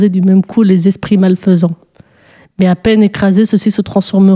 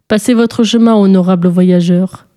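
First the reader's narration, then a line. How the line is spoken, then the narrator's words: Gloomy flat tone. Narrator (French): fit-il d'un ton morne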